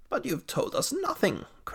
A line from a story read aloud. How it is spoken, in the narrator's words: cried the doctor